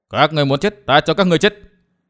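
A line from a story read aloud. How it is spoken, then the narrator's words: Shouting. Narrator (Vietnamese): Thạch Kiếm Cửu hét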